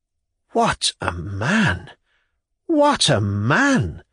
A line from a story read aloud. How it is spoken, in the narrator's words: exclaimed rapturously